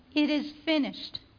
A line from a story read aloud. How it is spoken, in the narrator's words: He cried out again